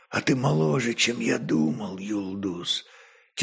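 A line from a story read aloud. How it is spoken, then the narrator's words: Soft whisper. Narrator (Russian): тихо прошептал он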